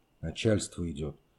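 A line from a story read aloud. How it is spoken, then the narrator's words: Quiet reply. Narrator (Russian): тихо ответил Пищалин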